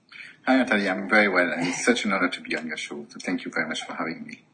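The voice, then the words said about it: French-Irish accent. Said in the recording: “is that a French accent I can detect there? ... it's a kind of a French-Irish accent”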